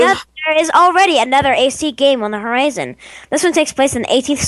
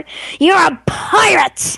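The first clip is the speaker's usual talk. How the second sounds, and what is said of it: Bad imitation of a pirate voice. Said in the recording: “That's the worst pirate imitation ever.”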